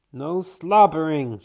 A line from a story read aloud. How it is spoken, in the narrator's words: she cries